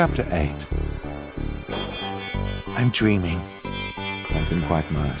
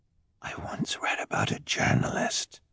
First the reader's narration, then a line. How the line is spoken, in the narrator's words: Duncan whispered